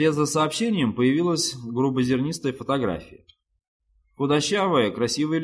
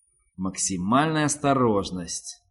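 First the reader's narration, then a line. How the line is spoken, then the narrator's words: Irritated mutter. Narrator (Russian): пробормотал раздраженный человек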